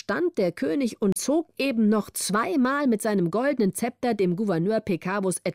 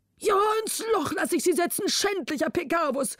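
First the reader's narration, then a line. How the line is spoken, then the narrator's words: Exhausted king calling out. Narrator (German): rief der König erschöpft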